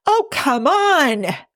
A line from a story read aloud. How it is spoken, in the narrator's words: howls Jim